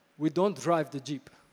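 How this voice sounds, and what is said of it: Put-on African accent, admittedly poor. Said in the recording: “That's my African accent... I'm not good with accents.”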